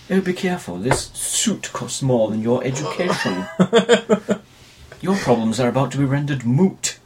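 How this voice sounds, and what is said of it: Exaggerated sort of British accent. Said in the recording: “he's got this ridiculous accent. It's a sort of British accent ... who talks like this?”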